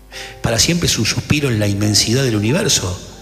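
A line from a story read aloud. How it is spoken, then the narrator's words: Plain reply. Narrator (Spanish): respondió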